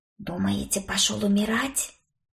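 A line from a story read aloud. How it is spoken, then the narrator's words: Whispered question. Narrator (Russian): шепотом спросила Стафи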